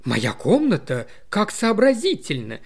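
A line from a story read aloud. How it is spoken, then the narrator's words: Enthusiastic exclamation. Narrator (Russian): с энтузиазмом воскликнула миссис Бетс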